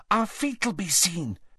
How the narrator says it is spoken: said Hermione anxiously

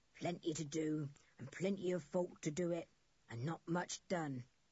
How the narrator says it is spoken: he said in a croaking kind of voice

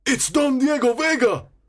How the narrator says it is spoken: exclaims Sergeant Gonzalez

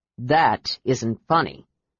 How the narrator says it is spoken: Brian growled over his shoulder

